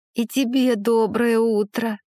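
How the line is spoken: Moaning young hare. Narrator (Russian): простонал зайчонок

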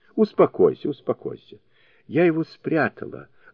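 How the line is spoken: Gentle affectionate reply. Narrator (Russian): ласково отвечала Лоча

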